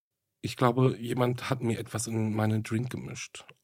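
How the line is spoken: Faint, fearful voice. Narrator (German): äußerte sie mit matter Stimme ihre Befürchtung

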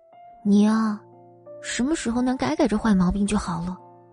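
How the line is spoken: Quiet muttering. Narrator (Chinese): 宋然小声嘀咕

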